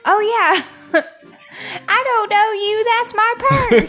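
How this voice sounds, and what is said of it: Own voice with slight twang. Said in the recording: “It's my voice still, just with a little bit of twang.”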